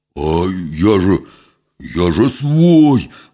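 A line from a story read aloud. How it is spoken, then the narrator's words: Wailing. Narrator (Russian): взвыл было Митька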